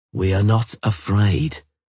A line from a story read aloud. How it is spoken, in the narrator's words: Geralt said calmly